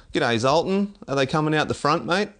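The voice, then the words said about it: Broad, undiluted Australian accent. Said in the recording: “you dumb down your Australian accent, but that's not my old man”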